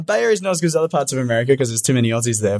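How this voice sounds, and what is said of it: Australian accent. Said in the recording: “good to see a man from Australia ... He's got a cute ... accent”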